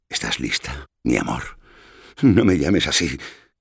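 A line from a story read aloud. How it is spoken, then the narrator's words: Pleading moan. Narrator (Spanish): gimió ella, más como un ruego que como una orden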